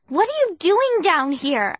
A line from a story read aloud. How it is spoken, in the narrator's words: I cried